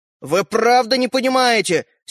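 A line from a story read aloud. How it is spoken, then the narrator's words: Angry reply. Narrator (Russian): сердито отозвался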